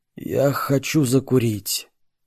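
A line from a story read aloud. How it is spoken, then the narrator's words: Wild, unsure. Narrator (Russian): босс дико и неуверенно произнес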